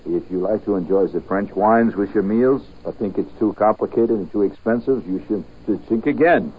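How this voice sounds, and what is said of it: Put-on French accent. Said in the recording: “reading the French accent ... It says pronounce shink again.”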